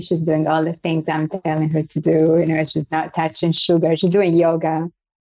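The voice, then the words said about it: Italian and French accent. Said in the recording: “Hence the beautiful accent... It's a combination of Italian and French... I know my accent is a little weird.”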